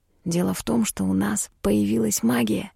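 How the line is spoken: Almost whispering. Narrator (Russian): почти шепотом сказал Мишель

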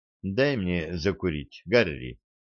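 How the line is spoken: Calm. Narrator (Russian): спокойно сказала она

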